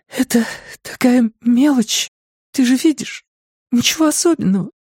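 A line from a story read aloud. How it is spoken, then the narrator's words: Halting voice. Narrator (Russian): она сказала прерывистым голосом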